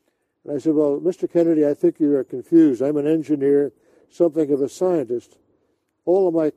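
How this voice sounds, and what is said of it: Usual voice. Nothing is said of it.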